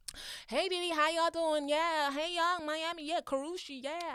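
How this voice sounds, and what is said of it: Put-on American accent. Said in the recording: “my American accent is sick”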